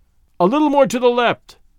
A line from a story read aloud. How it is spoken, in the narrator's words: called out